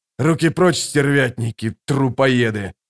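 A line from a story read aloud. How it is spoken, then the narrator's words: Growl. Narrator (Russian): прорычал Башар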